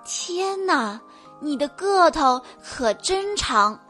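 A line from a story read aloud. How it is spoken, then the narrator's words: Amazed. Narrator (Chinese): 王子惊叹地说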